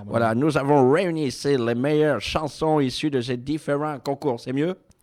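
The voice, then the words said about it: French with slight American accent. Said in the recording (French): “je prends la voix exceptionnellement de RCA Victor, qui est quelqu'un qui a tendance à bafouiller ... Un petit accent américain.”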